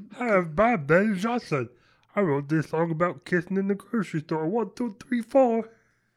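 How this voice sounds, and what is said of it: Imitates another person's voice. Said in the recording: “my Daniel Johnson impersonation”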